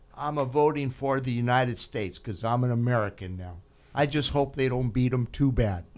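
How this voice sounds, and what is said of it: Put-on Italian accent. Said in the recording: “in her Italian accent”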